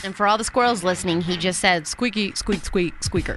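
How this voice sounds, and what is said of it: Kronk impression speaking squirrel. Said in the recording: “a terrible squirrel impression ... I was doing a Kronk impression from The Emperor's New Groove when he is interpreting a squirrel. He speaks squirrel.”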